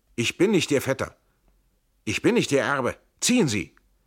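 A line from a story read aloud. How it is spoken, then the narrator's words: Called out. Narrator (German): Trenk rief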